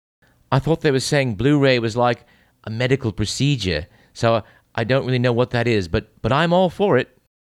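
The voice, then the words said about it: Fake British accent. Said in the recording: “phony British accent”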